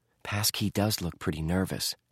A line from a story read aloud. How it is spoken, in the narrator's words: Josh whispered